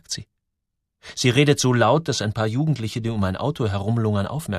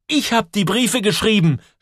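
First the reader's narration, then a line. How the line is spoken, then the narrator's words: Shouted. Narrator (German): schreit Joel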